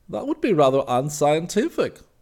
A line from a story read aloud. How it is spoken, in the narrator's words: Weiss laughed